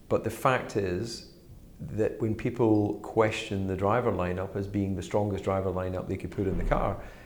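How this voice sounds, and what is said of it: Strongly rhotic accent. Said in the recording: “that's butter with 15 R's, by the way, because of my accent.”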